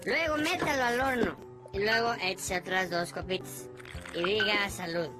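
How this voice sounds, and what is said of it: Mexican Spanish accent. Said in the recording (Spanish): “No cabe la menor duda de que es mexicano... ese acento”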